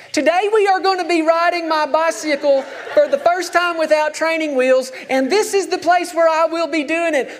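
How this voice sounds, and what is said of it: Thick Southern accent, child's voice. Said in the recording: “as a five-year-old with that thick Southern accent.”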